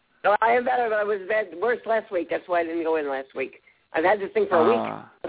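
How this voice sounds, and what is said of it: Congested, sick-sounding voice. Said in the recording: “I have a bad cold. Very bad cold.”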